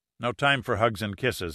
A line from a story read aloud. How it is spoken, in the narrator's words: said quickly